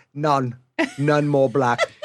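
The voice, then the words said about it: Put-on British accent. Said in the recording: “I should do it in a British accent.”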